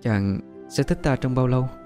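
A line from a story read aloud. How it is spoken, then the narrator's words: Soft, timid question. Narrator (Vietnamese): Bích Nguyệt chợt lấy hết can đảm, nàng khẽ hỏi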